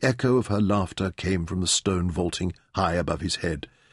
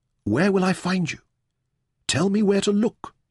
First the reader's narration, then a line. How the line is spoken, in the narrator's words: begged